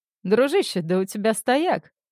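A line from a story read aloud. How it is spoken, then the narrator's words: Guffawed. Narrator (Russian): хохотнул Винс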